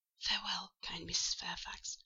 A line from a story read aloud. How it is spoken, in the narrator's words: I whispered